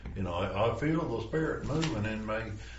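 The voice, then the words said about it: Put-on West Tennessee Southern accent. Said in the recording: “that's a really good impression. ... Georgia? ... West Tennessee.”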